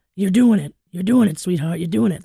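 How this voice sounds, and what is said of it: Imitates another person's voice. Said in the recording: “That's the wrong accent, but I can't do that like hefty voice.”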